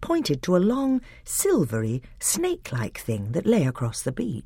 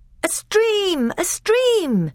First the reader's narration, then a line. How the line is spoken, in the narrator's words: shouted the others